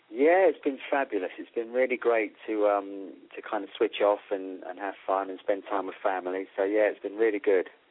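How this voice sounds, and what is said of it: Speaker with a noticeable accent. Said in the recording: “I just love your accent, and I always say between your accent and my accent”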